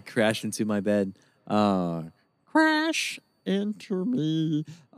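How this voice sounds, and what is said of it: Singer impression, Kermit-like voice. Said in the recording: “My Dave Matthews impression was bordering on, like, a Kermit the Frog thing”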